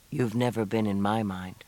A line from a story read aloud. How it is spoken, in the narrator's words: he said quietly